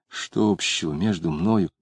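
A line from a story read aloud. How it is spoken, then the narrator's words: Muttering. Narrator (Russian): Самгин бормотал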